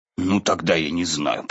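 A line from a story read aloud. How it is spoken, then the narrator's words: Muttered. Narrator (Russian): пробормотал Пух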